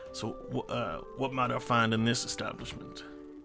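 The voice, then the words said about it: Put-on character accent. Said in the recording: “I need to get my accent in.”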